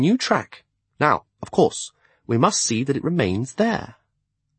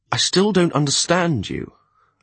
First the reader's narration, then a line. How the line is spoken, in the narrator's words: I replied irritably